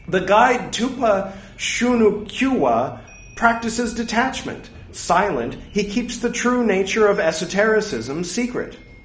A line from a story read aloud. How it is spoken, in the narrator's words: Tarpa Nagpo, irritated, exclaimed